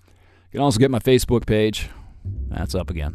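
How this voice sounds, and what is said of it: Flat, unenthusiastic delivery. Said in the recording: “I sound so enthusiastic, don't I?”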